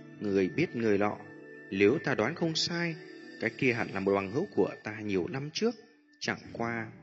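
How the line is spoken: Slightly troubled. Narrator (Vietnamese): Mỹ Đô Toa khẽ nhíu mày nói

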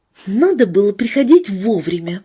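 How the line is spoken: Grumbling. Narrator (Russian): проворчала Валентина

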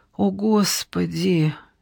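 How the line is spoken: Quiet. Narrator (Russian): тихо произнесла Евгения

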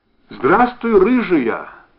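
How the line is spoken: Loud and joyful. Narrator (Russian): Вдруг громко и радостно сказал он

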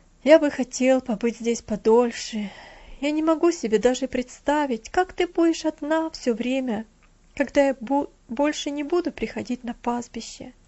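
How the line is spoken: Sad. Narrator (Russian): печально проговорил Винзи

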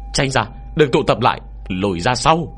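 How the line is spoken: Urgent alarmed shout. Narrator (Vietnamese): trong đầu hắn chợt loe lên một dự cảm không lành, liền vội vàng hét lớn về phía bảy si hùng

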